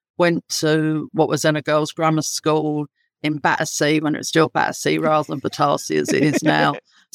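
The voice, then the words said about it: London accent. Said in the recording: “as my accent would indicate, I'm very, very much London born and bred”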